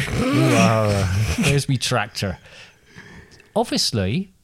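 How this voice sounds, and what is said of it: Put-on West Country pirate accent. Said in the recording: “What does a pirate sound like ... West Country ... you're going to go West Country”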